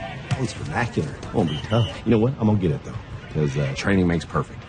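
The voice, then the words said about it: Corny Southern accent. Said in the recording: “That corny Southern accent.”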